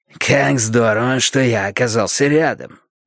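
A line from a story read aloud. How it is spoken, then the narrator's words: Hoarse voice. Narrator (Russian): Хриплый голос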